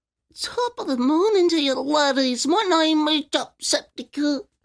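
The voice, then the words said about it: Good Jacksepticeye impression. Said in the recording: “He does a good Jacksepticeye, too.”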